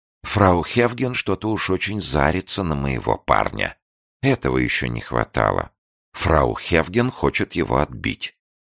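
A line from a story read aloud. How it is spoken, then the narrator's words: Jealous whisper. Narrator (Russian): Суфлерша Эфой, ревниво наблюдавшая из-за угла за увлеченной парой, шепнула швейцарцу Кнуру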